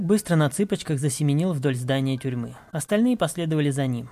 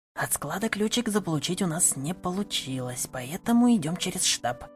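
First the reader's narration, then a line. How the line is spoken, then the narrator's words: Small guide's whisper. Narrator (Russian): прошептал маленький проводник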